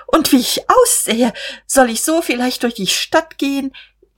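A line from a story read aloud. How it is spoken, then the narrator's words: Startled, helpless laughter. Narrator (German): Er erschrak aufs Neue und lachte ratlos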